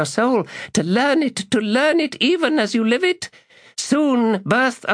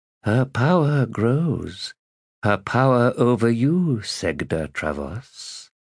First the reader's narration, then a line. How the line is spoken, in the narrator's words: the Redeemer murmured